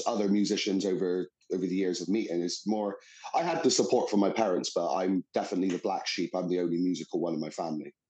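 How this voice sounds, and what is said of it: West Country English accent. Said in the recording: “we can hear a West Country twang.”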